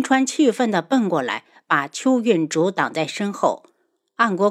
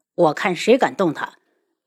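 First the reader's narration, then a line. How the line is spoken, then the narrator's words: Cold, stern voice. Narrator (Chinese): 安国公冷声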